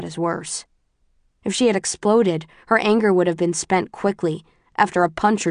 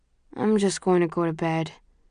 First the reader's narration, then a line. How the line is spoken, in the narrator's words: he mumbles